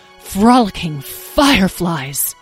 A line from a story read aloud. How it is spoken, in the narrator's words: exclaimed Moonbeam